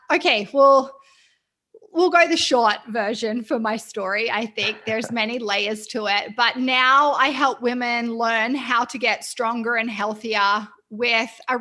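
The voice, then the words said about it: Mixed Australian-Canadian accent. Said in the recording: “I am Australian. I have a quite eclectic accent that people sometimes aren't sure ... I've lived in Vancouver in Canada for nearly 5 years”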